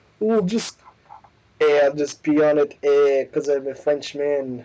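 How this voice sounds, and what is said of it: Poor put-on French accent. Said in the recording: “not a good French accent”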